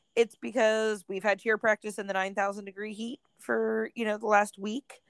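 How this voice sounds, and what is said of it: Hoarse, strained voice. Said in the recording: “My voice is kind of hoarse today ... I'm losing my voice over it ... I'm totally losing my voice from it”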